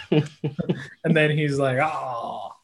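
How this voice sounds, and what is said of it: Good impression of Chet. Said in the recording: “such a good Chet impression”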